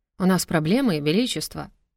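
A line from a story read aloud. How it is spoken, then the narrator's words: Quiet. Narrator (Russian): тихонько начал Пепел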